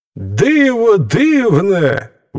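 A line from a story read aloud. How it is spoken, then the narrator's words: Animals exclaiming in unison. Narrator (Ukrainian): вигукнули звірі в один голос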